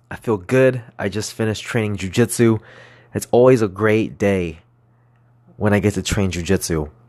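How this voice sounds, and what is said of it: Chipper, upbeat voice. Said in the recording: “my voice is pretty chipper”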